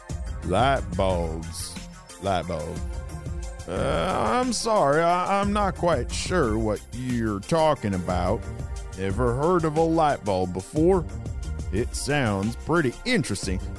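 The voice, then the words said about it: Country drawl. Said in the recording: “the man continued with a country drawl.”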